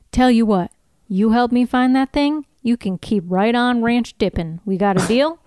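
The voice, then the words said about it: Deep southern US character accent. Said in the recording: “I think I do a way more southern Sawyer... my accent is like a little more deep south.”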